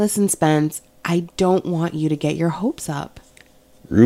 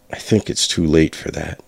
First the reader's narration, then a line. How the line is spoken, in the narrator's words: I muttered